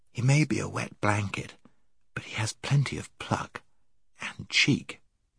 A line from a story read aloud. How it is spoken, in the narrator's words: whispered Scrub to Jill